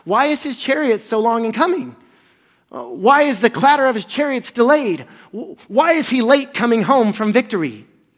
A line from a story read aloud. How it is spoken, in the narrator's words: Behind the lattice, she cried out